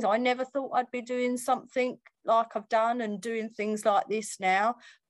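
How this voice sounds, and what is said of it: Essex (Romford) accent. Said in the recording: “I'm as Essex as you like, I've got my Romford accent.”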